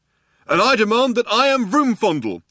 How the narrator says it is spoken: shouted the younger one

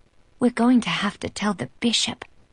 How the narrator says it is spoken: she whispers

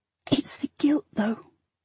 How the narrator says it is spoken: I said, whispering

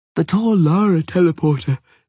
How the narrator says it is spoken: said Ciri, yawning widely

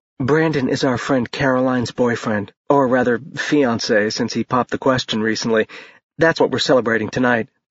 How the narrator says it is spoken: Bethany whispered

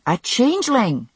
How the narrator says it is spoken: she said impatiently

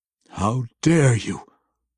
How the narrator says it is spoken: Wulfgar growled through gritted teeth

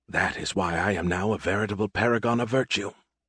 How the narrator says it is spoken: he muttered to himself

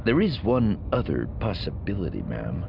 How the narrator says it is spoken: he said, lowering his voice

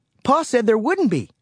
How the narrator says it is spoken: Sarah exclaimed wide-eyed

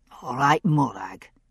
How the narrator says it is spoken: he said gruffly

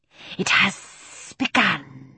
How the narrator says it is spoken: he said, hissing with pleasure

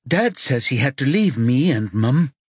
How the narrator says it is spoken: says, trying to keep her voice steady

